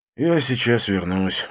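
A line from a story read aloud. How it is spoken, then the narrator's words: Sigh. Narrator (Russian): вздохнул я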